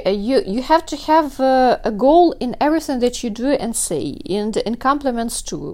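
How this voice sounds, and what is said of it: Non-native English accent. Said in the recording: “you speak with an accent ... I'm not a native speaker”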